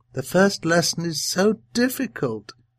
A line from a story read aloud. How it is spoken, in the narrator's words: the old woman would sigh